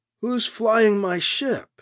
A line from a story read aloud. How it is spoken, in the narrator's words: Alibi asks in a weak voice